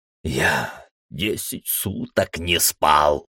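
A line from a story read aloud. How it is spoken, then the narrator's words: Hissed. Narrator (Russian): прошипел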